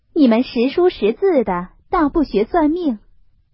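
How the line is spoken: Sighing. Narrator (Chinese): 凤姐儿叹了一声，向探春道

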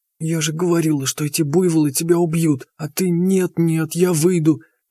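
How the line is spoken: Whispered nagging. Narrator (Russian): продолжала аптекарша шепотом пылесосить мне мозги, так, чтобы стоявший чуть поодаль Степаныч не слышал ее слова

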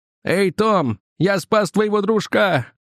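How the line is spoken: Grinning shout. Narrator (Russian): Ухмыльнувшись, он закричал

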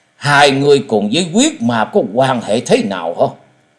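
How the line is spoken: Fierce. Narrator (Vietnamese): Tan hồn thái tuế với giọng hung dữ nói

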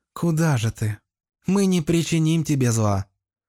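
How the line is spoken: Very tender female voice. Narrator (Russian): нежнейшим голосом произнесла дева с ангельским лицом

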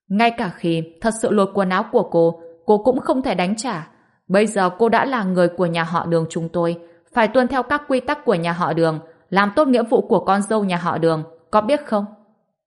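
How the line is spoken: Contemptuous loud laugh. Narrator (Vietnamese): Lộ Tình cười lớn, với sự khinh bỉ

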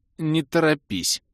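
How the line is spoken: Strained. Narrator (Russian): выдавил я

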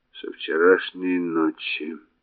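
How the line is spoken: Muttering. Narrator (Russian): пробормотал Реймар

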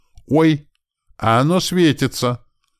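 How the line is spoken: Delighted shout from another room. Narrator (Russian): Полным восторгом голоса прокричал он из комнаты

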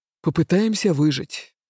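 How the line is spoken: Dragon's gruff mutter. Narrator (Russian): буркнул дракон

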